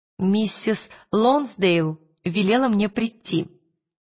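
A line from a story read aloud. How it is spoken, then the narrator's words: Plain. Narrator (Russian): сказала Лира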